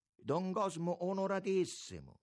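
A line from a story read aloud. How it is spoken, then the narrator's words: Exclaiming. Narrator (Italian): esclamò Capolino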